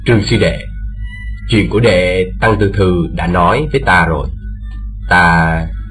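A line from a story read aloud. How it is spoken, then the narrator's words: Smiling, low voice. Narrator (Vietnamese): Bành Sương mỉm cười ... hạ giọng bảo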